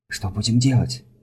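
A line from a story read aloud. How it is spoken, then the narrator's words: Whisper. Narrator (Russian): прошептала Арта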